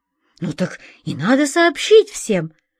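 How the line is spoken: Boy exclaiming. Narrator (Russian): воскликнул белокурый мальчик

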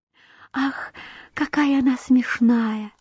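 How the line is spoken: Modest flowers whispering. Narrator (Russian): шептали скромные незабудки

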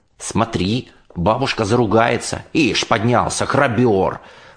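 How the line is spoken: Muttering. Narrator (Russian): бормотал Санька, отвлекая меня, зубы заговаривал

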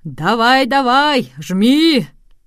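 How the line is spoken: Crowd shouting at full strength. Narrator (Russian): пассажиры и туристы кричали ему, что было мочи

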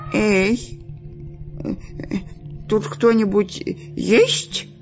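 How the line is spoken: Trembling voice. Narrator (Russian): спросил дрожащим голосом Дырка

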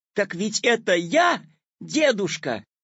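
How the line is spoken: Joyful shout. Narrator (Russian): обрадованно закричал Петя

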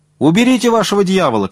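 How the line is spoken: Rider shouting. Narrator (Russian): кричал седок

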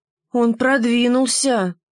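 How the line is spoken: Sighed. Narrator (Russian): вздохнула Штопольная игла

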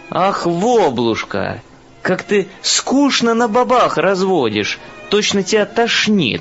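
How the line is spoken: Exclaiming. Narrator (Russian): воскликнет собеседник, ежели он из свеженьких

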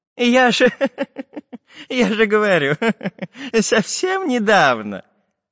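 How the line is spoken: Laughing. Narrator (Russian): засмеялся профессор

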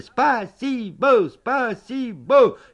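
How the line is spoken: Shouting. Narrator (Russian): мы закричали

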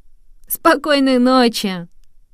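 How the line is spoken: Laughing mice. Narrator (Russian): смеялись мыши

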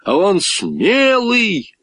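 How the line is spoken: Shouting out. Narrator (Russian): снова выкрикнул Гошка

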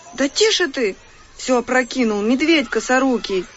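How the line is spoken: Exclamation. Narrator (Russian): воскликнула Маша

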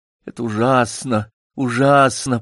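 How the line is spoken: Moaning. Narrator (Russian): простонал Такса

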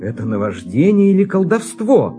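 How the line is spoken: Exclaimed, prisoner. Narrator (Russian): воскликнул пленник

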